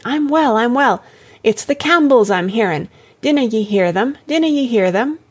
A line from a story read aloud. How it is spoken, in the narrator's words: cried Jessie